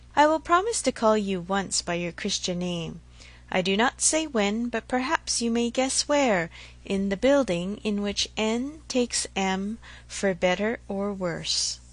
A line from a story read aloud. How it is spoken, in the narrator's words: she added presently, laughing and blushing